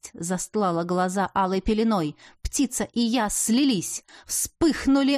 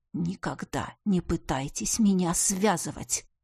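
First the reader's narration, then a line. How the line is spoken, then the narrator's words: Muttered. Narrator (Russian): пробормотала я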